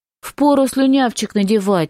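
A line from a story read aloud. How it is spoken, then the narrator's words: Laughing. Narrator (Russian): смеялся Чарльз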